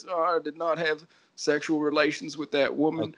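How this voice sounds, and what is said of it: Bill Clinton impression. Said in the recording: “your Clinton impression”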